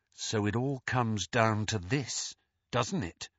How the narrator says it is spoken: whispered Harry

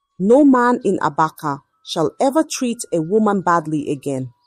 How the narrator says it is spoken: he said, his voice firm

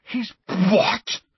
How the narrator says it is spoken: spluttered Ron, outraged

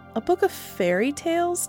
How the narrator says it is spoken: Tilly said nervously

